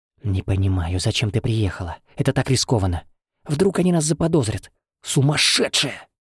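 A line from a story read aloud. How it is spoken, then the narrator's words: Strained male hiss. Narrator (Russian): прошипел сдавленный мужской голос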